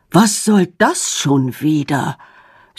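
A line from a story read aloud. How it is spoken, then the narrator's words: Despairing sigh. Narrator (German): seufzt er verzweifelt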